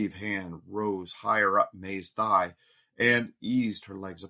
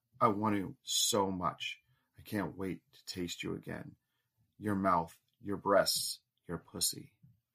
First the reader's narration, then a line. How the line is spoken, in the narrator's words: Steve whispered to May